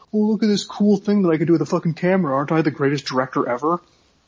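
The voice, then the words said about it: Impression of Darren Aronofsky. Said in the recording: “That's my impression of Darren Aronofsky.”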